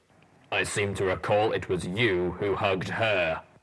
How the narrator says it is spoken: the Applejack's ranger retorted, a welcome hint of good humour in his normally taciturn rumble

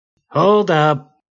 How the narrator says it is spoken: Gary called out

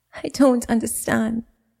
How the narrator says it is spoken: Jada finally stammered through aching sobs

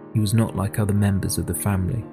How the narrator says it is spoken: said Matilda

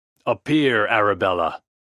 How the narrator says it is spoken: he exclaimed, in a commanding voice

